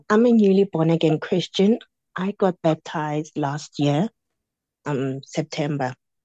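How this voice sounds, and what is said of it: South African accent. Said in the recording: “I'm calling you from South Africa ... I love your accent”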